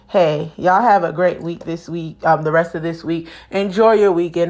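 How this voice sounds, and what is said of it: Low, tired, dropping voice. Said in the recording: “my demeanor is very low and my voice is dropping. I'm tired.”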